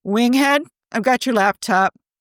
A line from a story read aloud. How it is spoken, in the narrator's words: Tony called out